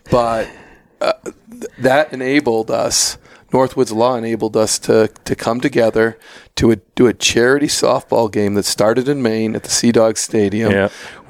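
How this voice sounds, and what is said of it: Hoarse voice. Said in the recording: “I'm hoarse right now from this Northwoods Throwdown because I announced at the Northwoods Throwdown”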